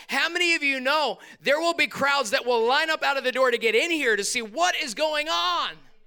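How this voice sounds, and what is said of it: Excited yelling. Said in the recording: “why are you yelling? ... I'm just really super excited”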